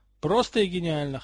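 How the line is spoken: Amused snort. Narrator (Russian): хмыкнул Поттер

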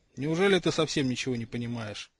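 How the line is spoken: Sighing. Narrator (Russian): вздохнул Ронан

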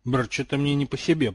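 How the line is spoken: Muttered. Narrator (Russian): пробормотал Драко Малфой

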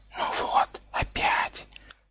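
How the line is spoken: Hissing creature head. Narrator (Russian): прошипела правая голова

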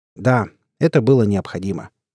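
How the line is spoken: Plain. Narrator (Russian): ответил капитан

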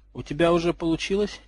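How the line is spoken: Quiet question. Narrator (Russian): тихо спросила

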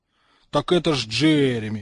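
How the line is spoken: Exclaiming in unison. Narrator (Russian): в один голос воскликнули слизеринцы

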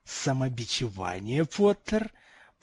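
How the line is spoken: Nearly hissing. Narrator (Russian): профессор уже практически шипел

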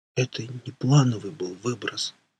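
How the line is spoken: Barely audible wheeze. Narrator (Russian): прохрипел я чуть слышно

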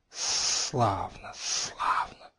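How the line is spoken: Hissing reply. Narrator (Russian): раздалось шипение в ответ

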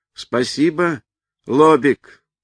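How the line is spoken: Shouted. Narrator (Russian): крикнул

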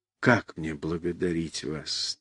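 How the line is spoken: Quiet, moved. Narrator (Russian): тихо и растроганно сказал

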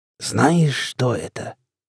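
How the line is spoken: Theatrically sinister voice. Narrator (Russian): спросил он картинно зловещим голосом

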